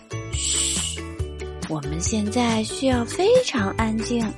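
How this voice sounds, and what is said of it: Quiet, hushed voice. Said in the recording (Chinese): “甜甜小声地说”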